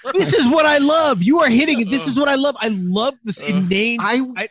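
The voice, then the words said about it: Excited yelling. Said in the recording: “I'm yelling out of passion and excitement.”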